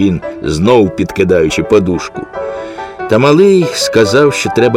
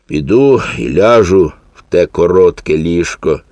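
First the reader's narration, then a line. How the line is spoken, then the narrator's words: Sighing. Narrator (Ukrainian): зітхнув він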